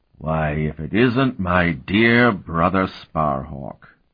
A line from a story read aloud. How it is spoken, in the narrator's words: Martell drawled